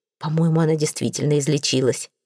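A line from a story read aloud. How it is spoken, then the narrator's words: Whispered. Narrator (Russian): шепотом сказал я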